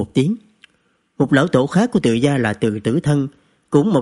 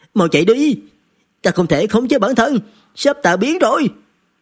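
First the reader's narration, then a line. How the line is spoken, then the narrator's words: Loud shout. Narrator (Vietnamese): Cao Quyền hét lớn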